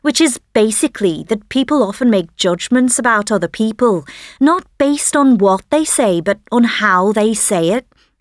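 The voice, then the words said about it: Liverpool English accent. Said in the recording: “As you can probably hear in my voice ... I'm from Liverpool”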